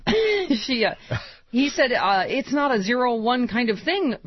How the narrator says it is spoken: Bernanke stammered in response

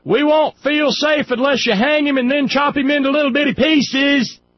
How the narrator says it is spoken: the Republicans would scream

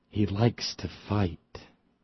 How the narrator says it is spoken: Russert spoke in a whisper

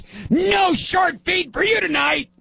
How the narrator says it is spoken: shouted at the horses

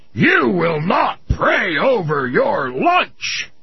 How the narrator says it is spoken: yelled at him

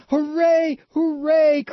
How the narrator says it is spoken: cried all the dolls and toys

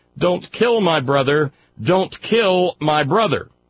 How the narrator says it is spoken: The little girl ... she shouted

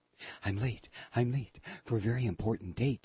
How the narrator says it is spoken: the white rabbit muttered

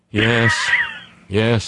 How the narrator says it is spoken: I said with a sigh

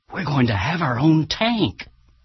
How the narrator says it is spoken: the mayor of Keene, New Hampshire, whispered excitedly

